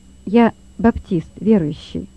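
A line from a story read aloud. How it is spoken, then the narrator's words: Calm, bold. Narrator (Russian): ответил Лёва спокойно и смело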